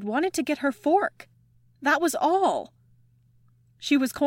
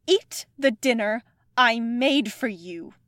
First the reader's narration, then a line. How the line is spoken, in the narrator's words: her mom said, and her tone was dangerous